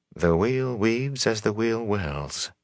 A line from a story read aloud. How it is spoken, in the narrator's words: she murmured